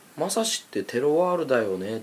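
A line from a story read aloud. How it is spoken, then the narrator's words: Plain. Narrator (Japanese): って言ってきたんですよね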